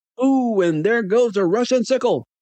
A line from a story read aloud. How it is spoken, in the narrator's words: Bob Cottle shrieked